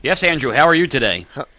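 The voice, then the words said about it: Deep, modulated radio announcer voice. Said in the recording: “put on his radio voice ... Proper modulation ... He's got a big boy voice.”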